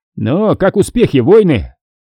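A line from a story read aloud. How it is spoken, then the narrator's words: Shout. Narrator (Russian): крикнул ротный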